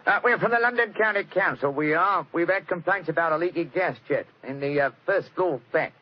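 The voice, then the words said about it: Put-on Cockney accent. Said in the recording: “My Cockney accent doesn't compare with yours.”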